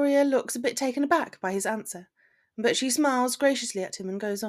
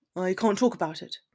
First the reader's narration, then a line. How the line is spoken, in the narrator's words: replies curtly